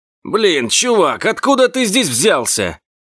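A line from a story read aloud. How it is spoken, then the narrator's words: Barked. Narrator (Russian): рявкнул на меня водитель грузовика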